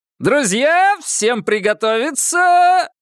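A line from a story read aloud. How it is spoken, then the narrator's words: Booming host's voice. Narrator (Russian): прогремел ведущий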